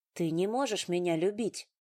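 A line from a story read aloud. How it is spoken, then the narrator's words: Calm, even voice. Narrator (Russian): сказала спокойно и ровно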